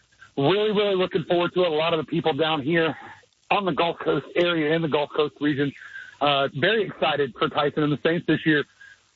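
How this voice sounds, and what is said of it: Out of breath, winded speech. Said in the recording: “Why are you so out of breath? ... sorry about that, choking up”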